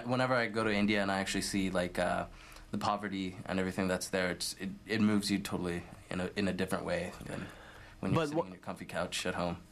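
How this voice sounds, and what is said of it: Indian accent. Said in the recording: “you do have a very Indian voice ... Tell from my accent that I'm Indian”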